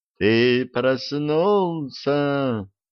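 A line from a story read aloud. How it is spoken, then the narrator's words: Sepulchral creature voice. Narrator (Russian): за могильным голосом произнесло существо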